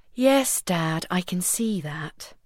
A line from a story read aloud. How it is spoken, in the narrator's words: the youngest princess murmured shamefacedly